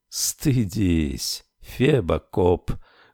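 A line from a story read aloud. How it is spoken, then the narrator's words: Smiling whisper. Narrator (Russian): шепнула она с улыбкой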